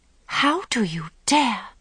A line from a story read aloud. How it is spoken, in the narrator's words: she gasped, raging